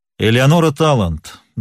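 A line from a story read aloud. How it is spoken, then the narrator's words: Loud. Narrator (Russian): громко произнес Нат Пинкертон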